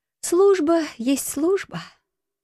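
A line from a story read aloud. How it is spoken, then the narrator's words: Feigned sigh. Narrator (Russian): притворно вздохнула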